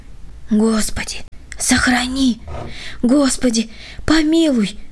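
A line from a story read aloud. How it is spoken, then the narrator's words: Frightened whisper. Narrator (Russian): шептали бледные губы Володи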